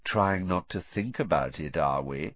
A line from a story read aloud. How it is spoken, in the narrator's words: said Malfoy, softly